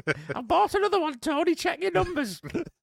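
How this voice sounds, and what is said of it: Comic put-on female character voice. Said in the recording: “Why do you sound like ... Any of the characters that Terry Jones used to portray in Monty Python. ... That's my female voice”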